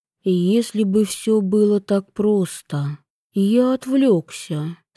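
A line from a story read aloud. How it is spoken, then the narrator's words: Deliberately soft. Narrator (Russian): сказал он, стараясь говорить мягко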